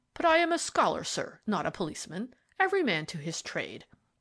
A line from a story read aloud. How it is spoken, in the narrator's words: snorted